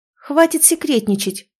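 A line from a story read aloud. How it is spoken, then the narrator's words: Shouted out. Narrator (Russian): выкрикнула Тония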